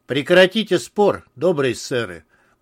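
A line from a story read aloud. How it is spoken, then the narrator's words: Calm, imposing demand. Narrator (Russian): потребовал Артур спокойно и внушительно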